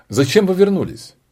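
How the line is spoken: Sharp question from queen. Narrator (Russian): резко спросила королева

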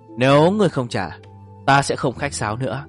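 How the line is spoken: Cold. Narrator (Vietnamese): Nhâm Quỷ Thần lạnh lùng nói

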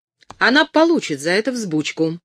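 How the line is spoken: Exclaimed, trembling with anger. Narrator (Russian): воскликнула Кэтрин, сама дрожа от гнева

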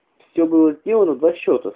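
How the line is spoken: Plain. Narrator (Russian): сказала Люлю

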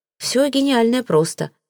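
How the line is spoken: Sigh. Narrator (Russian): вздохнул

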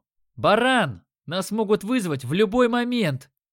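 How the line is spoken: Shouted. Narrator (Russian): крикнул я

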